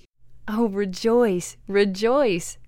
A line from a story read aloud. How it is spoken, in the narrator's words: cried the three